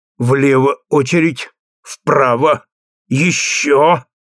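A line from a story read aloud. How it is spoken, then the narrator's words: Rhythmic words through teeth. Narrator (Russian): повторял в такт сквозь зубы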